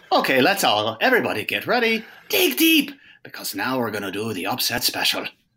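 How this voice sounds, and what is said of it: Put-on Irish accent. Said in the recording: “a little upset special Irish accent stinger ... the Irish accent intro”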